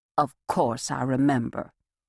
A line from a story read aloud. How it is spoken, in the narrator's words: radiating a smile, the well-groomed woman purred